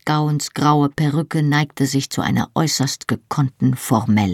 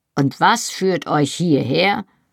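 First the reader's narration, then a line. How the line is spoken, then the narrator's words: Grumbling. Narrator (German): brummte er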